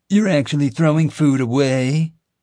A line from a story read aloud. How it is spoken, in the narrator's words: either Tim or Jim taunted Xavier cruelly